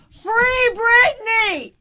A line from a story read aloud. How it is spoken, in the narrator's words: I kept yelling